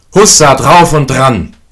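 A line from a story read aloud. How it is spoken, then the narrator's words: Calling out. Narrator (German): rief der Sechste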